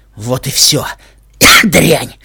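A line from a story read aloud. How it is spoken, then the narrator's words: Hoarse, breathless wheeze. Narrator (Russian): хрипло дыша просипел он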